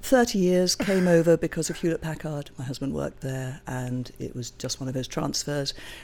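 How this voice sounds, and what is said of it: Foreign accent from across the pond. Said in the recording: “It's a little bit further across the pond ... my accent sounds like I can still go places and say, would you tell me how to get there? And they assume I'm a tourist”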